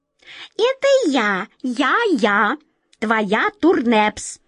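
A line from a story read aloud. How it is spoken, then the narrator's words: Shrill voice. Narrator (Russian): продолжал все тот же визгливый голос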